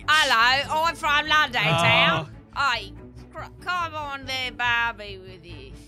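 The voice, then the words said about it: Put-on British accent. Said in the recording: “British accent ... Very good at British accents”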